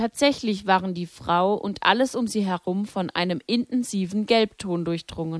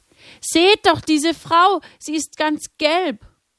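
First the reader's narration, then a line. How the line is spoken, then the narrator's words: Frightened cry. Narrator (German): Erschrocken schrie jemand auf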